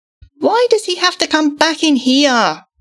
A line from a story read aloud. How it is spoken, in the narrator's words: whined